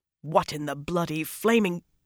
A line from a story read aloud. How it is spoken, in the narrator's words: Snarling